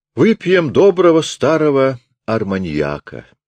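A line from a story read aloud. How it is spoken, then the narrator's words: Plain. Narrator (Russian): сказал Равик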